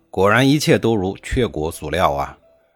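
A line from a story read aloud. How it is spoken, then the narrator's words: Admiring exclamation. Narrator (Chinese): 晋文公不禁感叹地说道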